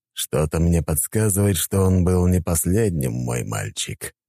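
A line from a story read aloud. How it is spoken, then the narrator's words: Gloomy speech. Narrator (Russian): мрачно сказал Дориан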